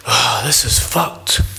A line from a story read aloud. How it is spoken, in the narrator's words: Lennox whispers in melancholy laughter